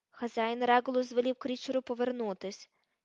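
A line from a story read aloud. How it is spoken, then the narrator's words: Plain. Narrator (Ukrainian): відповів він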